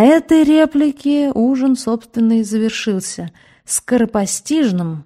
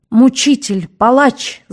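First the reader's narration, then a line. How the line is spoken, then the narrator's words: Very loud scream. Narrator (Russian): закричала она так громко, что на столе задребезжал хрусталь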